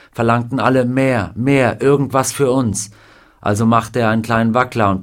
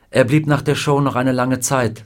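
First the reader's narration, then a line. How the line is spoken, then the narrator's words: Plain. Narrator (German): sagte Carla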